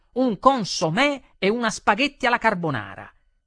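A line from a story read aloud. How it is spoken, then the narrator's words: Shouting at full voice. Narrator (Italian): gridai con quanta voce avevo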